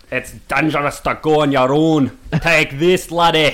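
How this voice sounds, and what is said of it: Put-on Scottish accent. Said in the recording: “they always speak with a Scottish accent”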